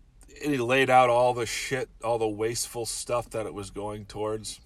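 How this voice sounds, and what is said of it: Usual voice. Nothing is said of it.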